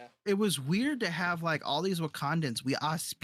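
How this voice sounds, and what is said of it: Usual voice. Nothing is said of it.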